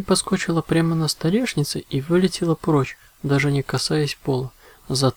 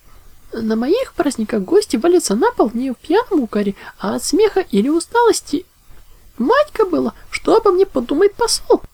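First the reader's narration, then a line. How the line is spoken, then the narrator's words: Exclaiming. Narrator (Russian): воскликнула Паняша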